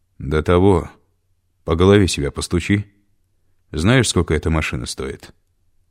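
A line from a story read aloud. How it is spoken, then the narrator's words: Quiet with slight whistle. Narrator (Russian): Голос у Виктора Караваева, как обычно, звучал тихо и с едва заметным присвистом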